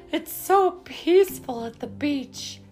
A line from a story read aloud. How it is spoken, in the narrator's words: sighed Mama